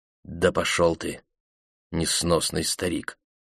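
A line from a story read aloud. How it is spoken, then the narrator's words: Mutter. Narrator (Russian): пробормотал Дэн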